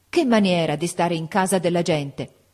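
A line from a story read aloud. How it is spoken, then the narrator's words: Exclaimed. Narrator (Italian): esclamò donna Ferdinanda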